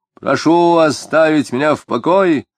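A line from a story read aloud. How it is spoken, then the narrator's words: Shout. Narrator (Russian): тоже крикнул Тагильский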